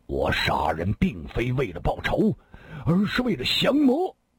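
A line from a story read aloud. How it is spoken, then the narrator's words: Angry. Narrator (Chinese): 新建大师怒声说道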